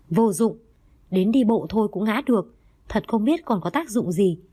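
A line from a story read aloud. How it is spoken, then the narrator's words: Angry. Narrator (Vietnamese): Anh ta tức giận nói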